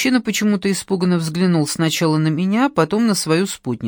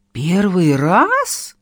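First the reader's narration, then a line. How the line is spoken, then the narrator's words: Exclaiming. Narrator (Russian): воскликнула та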